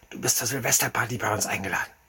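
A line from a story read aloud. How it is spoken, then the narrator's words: Whispered in ear. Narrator (German): flüsterte er mir ins Ohr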